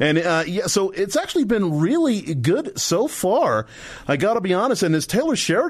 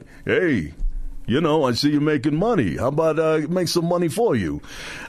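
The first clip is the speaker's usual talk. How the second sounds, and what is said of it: Rough Sylvester Stallone impression. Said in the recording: “terrible Stallone impression ... I'm going to do a Stallone impression.”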